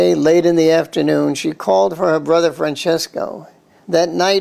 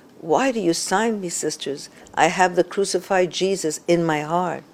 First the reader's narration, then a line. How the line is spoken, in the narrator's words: she gently but firmly protested over and over again